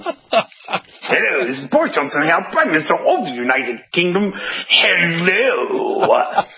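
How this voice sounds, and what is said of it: Boris Johnson impression. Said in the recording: “I think that's where Boris gets his accent from.”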